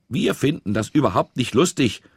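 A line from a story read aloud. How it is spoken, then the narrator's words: Loud addition. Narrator (German): ergänzte Britta ebenso laut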